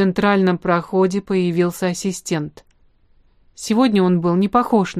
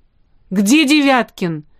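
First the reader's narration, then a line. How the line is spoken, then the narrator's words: Exclamation. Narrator (Russian): воскликнул он вслед за Штерном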